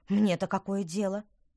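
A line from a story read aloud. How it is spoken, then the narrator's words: Snort. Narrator (Russian): фыркнула Петронелла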